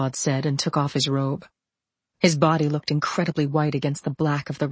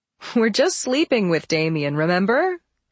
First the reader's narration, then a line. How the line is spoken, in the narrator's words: I said, half laughing